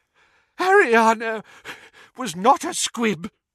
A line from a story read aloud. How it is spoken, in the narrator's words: wheezed Doge